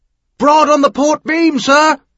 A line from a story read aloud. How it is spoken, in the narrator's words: the lookout shouted back down